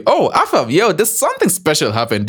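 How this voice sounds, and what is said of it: Voice suddenly goes high-pitched. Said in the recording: “Why did my voice go high like that?”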